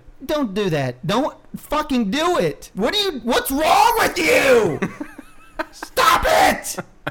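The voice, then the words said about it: Yelling. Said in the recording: “Why are you yelling at the listeners?”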